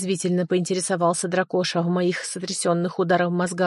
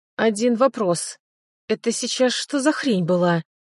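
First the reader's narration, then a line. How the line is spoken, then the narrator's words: Inner groan. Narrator (Russian): мысленно простонал я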